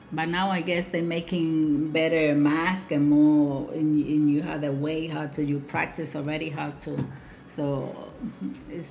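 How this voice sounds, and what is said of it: Non-native English accent. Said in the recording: “my accent ... somebody with an accent”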